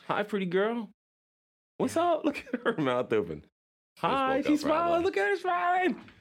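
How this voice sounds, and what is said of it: Baby voice. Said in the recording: “my baby voice”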